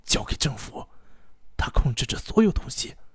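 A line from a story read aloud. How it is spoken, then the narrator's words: Anxious, urgent whisper. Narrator (Chinese): 一个十分焦急且面容憔悴的人 小声地嘱咐了一句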